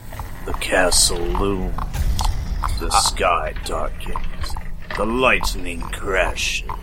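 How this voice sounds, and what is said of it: Dramatic narrator voice. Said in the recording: “That's my narrator voice.”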